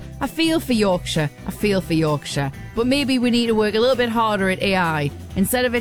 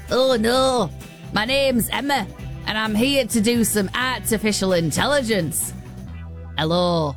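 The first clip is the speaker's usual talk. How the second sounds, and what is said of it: Put-on Yorkshire accent. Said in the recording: “could you imagine an AI bot that had a Yorkshire accent?”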